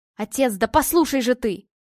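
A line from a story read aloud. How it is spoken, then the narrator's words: Shouting, losing patience. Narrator (Russian): не выдержав, закричал Гриша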